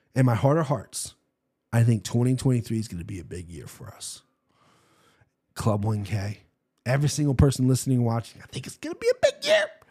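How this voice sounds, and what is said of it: Congested, stuffed-up voice. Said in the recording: “I got a runny nose. Sorry if I sound stuffed up.”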